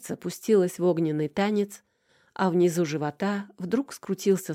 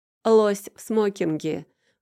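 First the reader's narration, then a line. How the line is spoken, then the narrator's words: Adolescent's scornful snort. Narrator (Russian): фыркнул Лёшка, которого явно очень не вовремя хватанул пубертат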